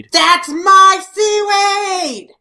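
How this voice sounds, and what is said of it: Angry yelling. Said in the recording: “she's yelling it with such angry and like conviction”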